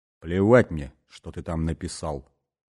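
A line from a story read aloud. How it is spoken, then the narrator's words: Grim, curt. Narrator (Russian): мрачно бросил Бастон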